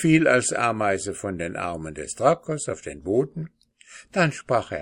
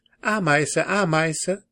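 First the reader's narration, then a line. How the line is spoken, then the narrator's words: Called out. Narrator (German): Der aber rief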